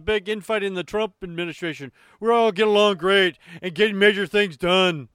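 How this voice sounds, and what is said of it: Imitates another person's voice. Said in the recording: “I especially like the way you read it. Very realistic ... my Trump impression”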